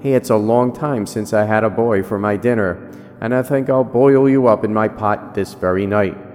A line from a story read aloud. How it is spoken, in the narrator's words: that great ogre laughs and roars